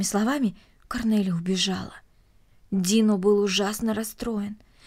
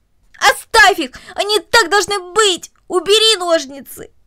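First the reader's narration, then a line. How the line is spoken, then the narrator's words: Desperate shout. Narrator (Russian): Корнелли буквально закричала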